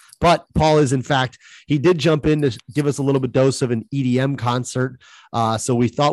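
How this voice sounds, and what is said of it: Usual voice. Nothing is said of it.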